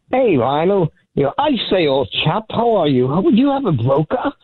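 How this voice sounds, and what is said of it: Put-on British accent, unconvincing. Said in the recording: “From our friend in the UK ... I figured I'd do a little accent. I love that man's accent. ... Is that an accent? I thought you had a mild stroke just now.”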